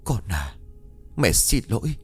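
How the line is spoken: Soft mutter. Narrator (Vietnamese): Miệng của con khẽ lẩm bẩm

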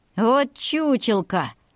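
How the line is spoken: Laughing. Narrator (Russian): хохотнул Марко Вебер

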